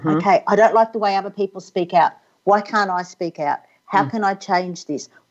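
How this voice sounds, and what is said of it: Australian accent. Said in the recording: “love your accent. Just love Australian accents.”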